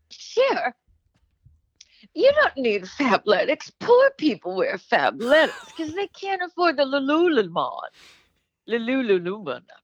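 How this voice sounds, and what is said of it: Imitates another person's voice. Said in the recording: “Let me get back in my Liza voice”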